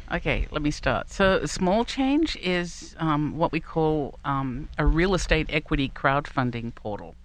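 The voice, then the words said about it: Australian accent. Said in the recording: “she has a different accent, as everyone will hear in a moment ... It's a down under Yinzer accent.”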